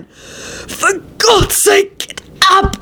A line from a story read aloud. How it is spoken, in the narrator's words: He gasped out